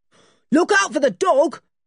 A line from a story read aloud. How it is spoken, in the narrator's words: shouted one of the men